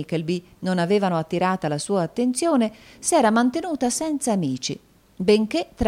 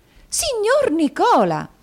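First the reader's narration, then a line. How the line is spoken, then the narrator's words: Startled exclamation. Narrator (Italian): esclamò la signorina Lacrivi con un balzo di sorpresa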